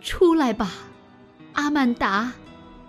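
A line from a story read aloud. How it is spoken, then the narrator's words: Father's trembling voice. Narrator (Chinese): 父亲声音颤抖地说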